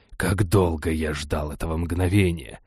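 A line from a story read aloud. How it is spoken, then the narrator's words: Sinister whisper in ear. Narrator (Russian): прямо мне в ухо зловещим шепотом проговорил Триаззес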